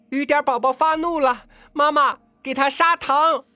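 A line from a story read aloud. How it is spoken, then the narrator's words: Girl's sudden shrill cry. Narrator (Chinese): 那个农民家的女孩猛地用一个尖锐的、叫人吃惊的声音叫道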